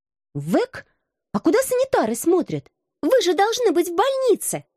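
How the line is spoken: Strained squeak. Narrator (Russian): С трудом овладев голосом, пискнула я

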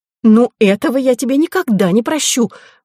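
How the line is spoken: Exclaiming. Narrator (Russian): воскликнула она

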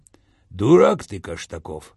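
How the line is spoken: Calm. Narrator (Russian): спокойно произнес Виталик

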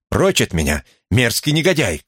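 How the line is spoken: Pale-faced shout. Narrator (Russian): крикнула она с побелевшим лицом

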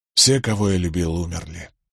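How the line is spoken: Sighing. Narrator (Russian): вздохнул он

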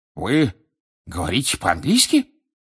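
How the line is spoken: Indignant exclamation. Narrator (Russian): возмущенно воскликнул Фадж

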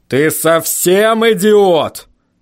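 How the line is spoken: Growl. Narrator (Russian): прорычал Ваймс

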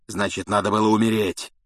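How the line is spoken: Growl. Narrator (Russian): прорычал Блэк

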